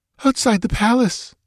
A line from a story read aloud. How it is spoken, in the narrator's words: she whimpered